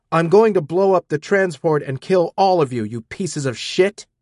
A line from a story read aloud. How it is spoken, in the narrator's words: I yelled